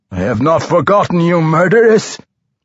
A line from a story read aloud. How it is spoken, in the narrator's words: The drider roared